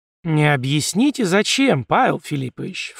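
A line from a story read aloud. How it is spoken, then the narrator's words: Ingratiating inquiry. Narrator (Russian): вкрадчиво поинтересовался Иванов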